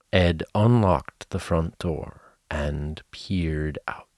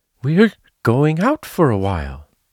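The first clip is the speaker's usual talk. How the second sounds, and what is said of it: Wavering, shaky voice. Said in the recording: “in a wavering voice”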